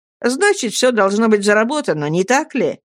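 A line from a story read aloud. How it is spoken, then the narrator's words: Cheerful. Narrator (Russian): весело сказал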